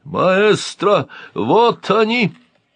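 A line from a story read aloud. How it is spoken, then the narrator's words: Yelling from darkness. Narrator (Russian): заорал Катарсис из темноты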